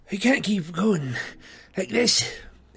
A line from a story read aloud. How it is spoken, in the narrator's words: panted